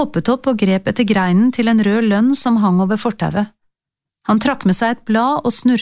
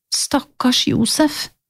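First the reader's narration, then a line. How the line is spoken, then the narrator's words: Whispered. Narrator (Norwegian): hvisket jeg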